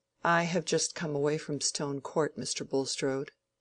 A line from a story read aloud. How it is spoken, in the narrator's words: to say, in a rather subdued voice